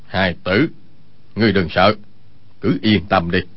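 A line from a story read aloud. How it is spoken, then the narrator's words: Lowered voice, suddenly serious. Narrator (Vietnamese): vẻ tươi cười lập tức thu hết lại, hạ giọng nói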